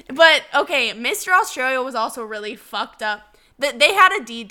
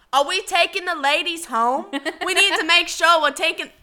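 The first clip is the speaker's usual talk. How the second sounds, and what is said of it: Poor imitation of Australian accent. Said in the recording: “Mr. Australia ... Is that accent good? ... No, no, it's really bad.”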